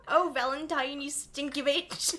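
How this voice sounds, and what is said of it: Character voice with Irish accent. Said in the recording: “He speaks with an Irish accent.”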